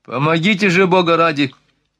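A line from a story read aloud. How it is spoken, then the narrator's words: Panicked yelling. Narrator (Russian): заорал доезжачий, которому не подчинялась лошадь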